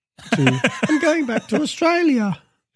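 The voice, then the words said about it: Put-on Australian accent. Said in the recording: “That's my Australian accent, by the way. ... Yeah, that was good. You should keep practicing, though.”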